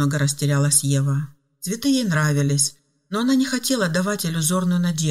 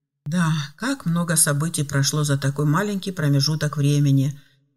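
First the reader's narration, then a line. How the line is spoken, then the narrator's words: Sighing. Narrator (Russian): вздохнул Филипп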